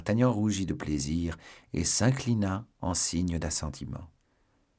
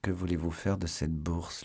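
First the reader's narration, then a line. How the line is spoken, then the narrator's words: Whispered into ear. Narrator (French): lui dit-il tout bas à l'oreille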